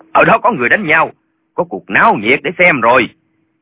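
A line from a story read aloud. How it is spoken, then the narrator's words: Excited shout. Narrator (Vietnamese): Lệnh Hồi Xung la lên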